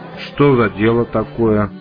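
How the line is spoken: Disconcerted grumble. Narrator (Russian): буркнул бармен, слегка обескураженный

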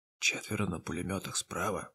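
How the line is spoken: Orderly's whisper. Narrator (Russian): прошептал ординарец командира

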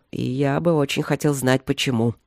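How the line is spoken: Grumbling. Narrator (Russian): проворчал он

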